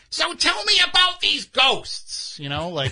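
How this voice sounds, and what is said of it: Impression of Gilbert Gottfried. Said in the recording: “That was a great impression... Really good... He doesn't talk in that voice on the show. He doesn't use his shtick.”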